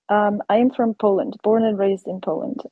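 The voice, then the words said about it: Slight foreign accent. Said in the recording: “You have a little bit of an accent. ... A little bit of an accent.”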